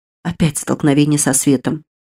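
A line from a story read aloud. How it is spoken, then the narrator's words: Quiet, abbess. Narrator (Russian): тихонько проговорила игуменья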